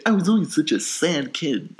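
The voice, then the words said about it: Poor imitation of another person's voice. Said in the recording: “That was a terrible Woody Allen impression.”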